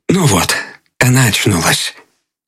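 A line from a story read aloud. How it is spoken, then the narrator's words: Said softly. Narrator (Russian): Он сказал тихонько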